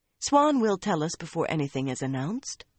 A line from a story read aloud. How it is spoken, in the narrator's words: the fool girl said calmly